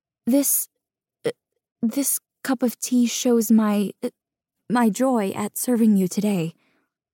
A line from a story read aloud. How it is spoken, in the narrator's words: I stutter